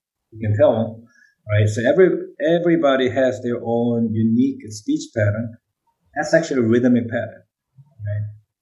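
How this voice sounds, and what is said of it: Korean accent in English. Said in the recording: “you can feel my accent is different than yours. English is not my first language. I still maintain my Korean accent.”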